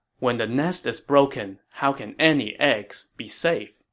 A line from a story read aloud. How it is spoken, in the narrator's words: the 2 boys calmly replied